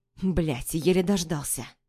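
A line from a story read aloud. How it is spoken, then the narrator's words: Muttering. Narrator (Russian): Бормочет он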